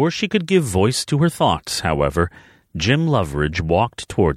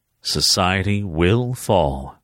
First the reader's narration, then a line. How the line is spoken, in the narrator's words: he told her calmly